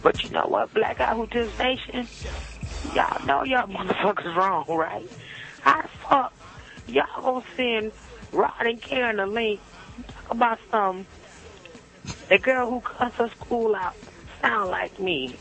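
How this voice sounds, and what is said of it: Strained, worn-out voice. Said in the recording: “My voice is a little off right now. I've been screaming my goddamn head off all weekend.”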